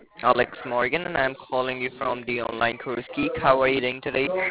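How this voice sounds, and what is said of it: Indian English accent. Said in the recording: “yo Indian ass ... Your fucking damn voice ... Fix your accent”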